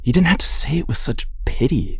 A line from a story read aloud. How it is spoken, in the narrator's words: Martha mutters